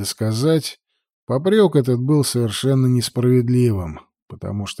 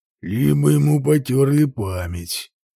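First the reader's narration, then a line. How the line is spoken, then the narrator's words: Grumbling. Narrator (Russian): буркнул Валенок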